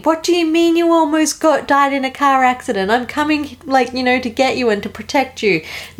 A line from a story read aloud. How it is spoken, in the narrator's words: Ned, he's screaming